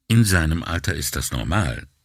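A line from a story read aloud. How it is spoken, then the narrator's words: Calm. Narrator (German): sagte sie ruhig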